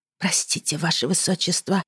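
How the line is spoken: Whispered. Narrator (Russian): прошептала

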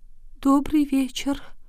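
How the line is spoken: Barely audible group whisper. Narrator (Russian): Несчастная четверка еле слышно прошептала

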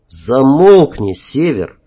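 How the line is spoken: Through gritted teeth. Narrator (Russian): процедил Вадим

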